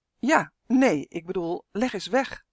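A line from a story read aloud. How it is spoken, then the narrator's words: Confused stammering. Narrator (Dutch): stamelde Justin verward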